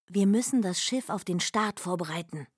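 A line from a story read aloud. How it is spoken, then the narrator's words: Whispered. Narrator (German): flüsterte Myh Bott und dem Prinzen zu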